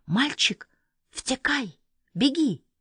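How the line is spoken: Whispered. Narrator (Russian): прошептала Элька

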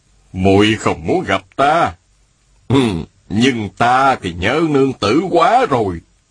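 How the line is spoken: Smiling. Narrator (Vietnamese): An đại nhân mỉm cười, y nói

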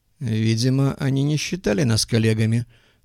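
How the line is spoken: Sighing. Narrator (Russian): вздохнул Голубков

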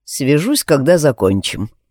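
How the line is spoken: Calm. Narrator (Russian): сказал я спокойно

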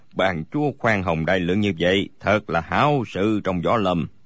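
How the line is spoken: Smiling reply. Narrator (Vietnamese): Bối Hải Thạch mỉm cười đáp

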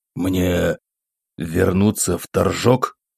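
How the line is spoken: Quiet, shaken question. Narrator (Russian): тихо спросил провинциальный настоятель, чувствуя, как подкашиваются ноги

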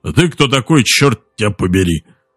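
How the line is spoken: Child's surprisingly deep bass. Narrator (Russian): Мальчик заговорил на удивление густым басом

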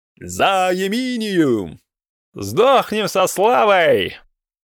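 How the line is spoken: Drunken battle roar. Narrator (Russian): взревел красный от браги Перетрекумб

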